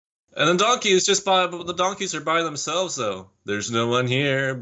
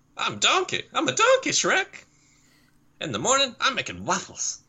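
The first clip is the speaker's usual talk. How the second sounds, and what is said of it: Imitates another person's voice. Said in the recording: “your Eddie Murphy impression”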